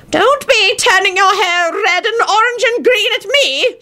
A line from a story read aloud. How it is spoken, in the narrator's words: shouted John